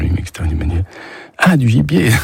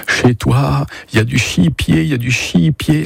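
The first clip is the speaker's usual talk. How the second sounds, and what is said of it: Strong regional French accent imitation. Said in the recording (French): “L'accent très prononcé”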